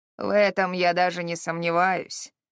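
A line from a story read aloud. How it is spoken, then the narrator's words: Gloomy. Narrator (Russian): мрачно кивнул Харрод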